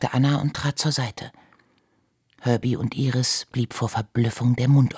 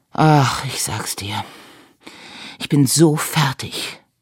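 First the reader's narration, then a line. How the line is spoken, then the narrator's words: Dejected sigh. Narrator (German): seufzte er niedergeschlagen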